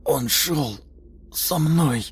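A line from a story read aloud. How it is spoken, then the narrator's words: Strained, forced out. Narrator (Russian): выдавил он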